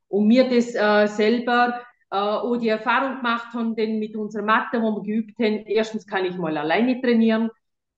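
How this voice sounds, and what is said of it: Speaks with regional German dialect. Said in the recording (German): “du bist im Dialekt. ... du rutscht aber mal ein Wort raus.”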